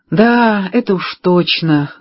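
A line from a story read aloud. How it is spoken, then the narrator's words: Sad, smiling. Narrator (Russian): грустно улыбнулась она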